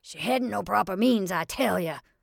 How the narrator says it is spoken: wheezed Mrs

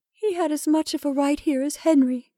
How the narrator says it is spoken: sobbed Rebecca

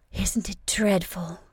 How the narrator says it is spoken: Stell gasped

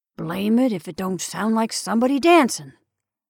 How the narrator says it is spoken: he growled

